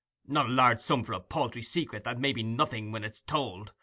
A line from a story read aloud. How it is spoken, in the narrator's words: cried Monks impatiently